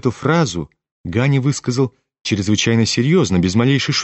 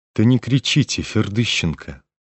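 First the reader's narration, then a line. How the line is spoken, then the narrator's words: Disgusted undertone. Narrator (Russian): с отвращением заметил ему вполголоса Птицын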